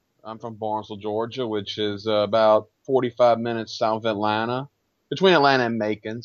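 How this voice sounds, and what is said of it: Southern US Georgia accent. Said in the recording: “Obviously, based on your accent, you're from Chad Campbell country.”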